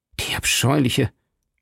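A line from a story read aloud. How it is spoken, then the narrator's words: Murmured. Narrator (German): murmelte D'Artagnan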